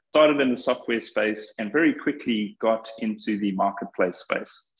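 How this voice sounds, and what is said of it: Flat South African accent. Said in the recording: “I started in software in South Africa many moons ago, hence the flat accent that I just can't get rid of no matter where I go”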